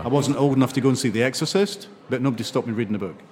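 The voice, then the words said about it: Scottish accent. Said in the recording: “Scottish accents”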